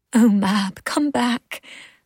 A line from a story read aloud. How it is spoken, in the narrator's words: Ursula pleaded silently